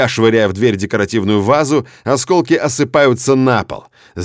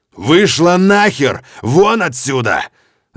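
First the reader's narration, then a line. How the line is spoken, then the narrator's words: Furious yelling. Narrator (Russian): Ору я на нее бешеным голосом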